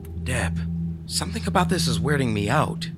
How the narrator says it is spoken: I said hesitantly

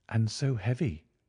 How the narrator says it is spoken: she exclaimed, trying to raise it

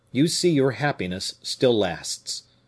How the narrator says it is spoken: said the captain bitterly to the young woman

